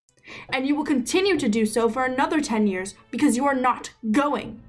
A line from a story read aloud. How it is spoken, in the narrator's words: Delphine screamed